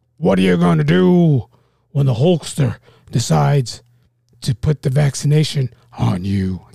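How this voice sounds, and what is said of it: Imitates a wrestler's voice. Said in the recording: “my Hulk Hogan impression”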